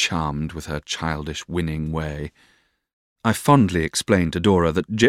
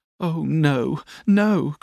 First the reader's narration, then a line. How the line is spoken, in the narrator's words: cried Dora